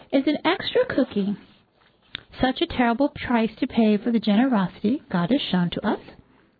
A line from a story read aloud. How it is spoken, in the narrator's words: He asked gently